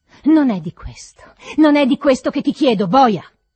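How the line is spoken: Shouting, trembling with rage. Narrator (Italian): gridai tremando di rabbia

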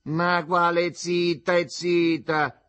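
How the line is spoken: Mother shouting. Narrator (Italian): gridò la madre

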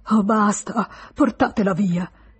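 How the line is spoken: Shouting while sobbing. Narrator (Italian): gridò Charles, che singhiozzava nell'alcova

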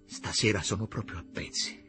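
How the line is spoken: Low voice. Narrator (Italian): le disse a voce bassa

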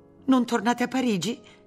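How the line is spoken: Exclaimed. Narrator (Italian): esclamò Martina

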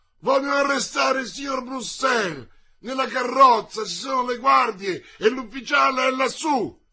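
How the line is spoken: Shout. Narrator (Italian): gridò Friquet

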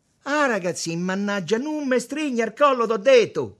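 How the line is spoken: Shouted. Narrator (Italian): gridò Tommaso

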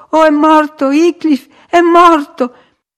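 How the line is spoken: Heartbroken sobbing. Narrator (Italian): scoppiarono in singhiozzi da spezzare il cuore

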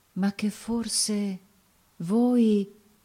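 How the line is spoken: Brigand murmuring. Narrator (Italian): mormorando

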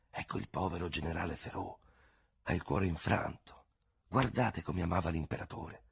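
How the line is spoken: Crowd whispering. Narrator (Italian): la gente bisbigliava

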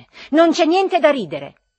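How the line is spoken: Increasingly irritated shout. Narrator (Italian): gridai io a Ferfichin, irritandomi sempre di più

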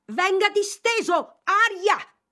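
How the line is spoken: Shouted. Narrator (Italian): gridò Mr

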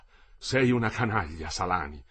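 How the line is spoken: Exclaiming. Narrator (Italian): esclamò

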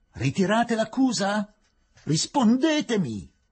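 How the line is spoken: Shouted. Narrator (Italian): gridò il rappresentante della giustizia

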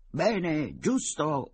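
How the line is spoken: Shouted in chorus. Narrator (Italian): urlarono in coro i soci

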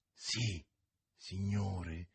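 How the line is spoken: Frightened barely audible reply. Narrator (Italian): rispose così piano che a malapena lo si poté udire, lo spaurito borghese

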